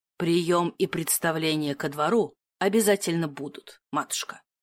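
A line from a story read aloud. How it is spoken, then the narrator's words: Cold interjection. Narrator (Russian): вставил герцог холодно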